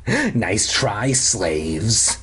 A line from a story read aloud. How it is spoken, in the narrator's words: he rasped